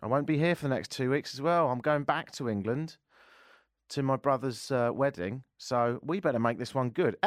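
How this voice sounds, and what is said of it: English accent. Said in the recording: “hence the accent. I'm English.”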